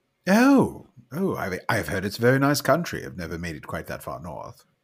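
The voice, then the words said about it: Put-on British accent. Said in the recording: “You have an accent of man of Britain.”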